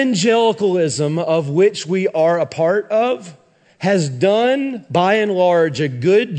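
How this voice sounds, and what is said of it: Usual voice. Nothing is said of it.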